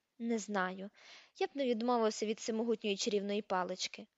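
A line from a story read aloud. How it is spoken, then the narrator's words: Muttering. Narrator (Ukrainian): пробурмотів Гаррі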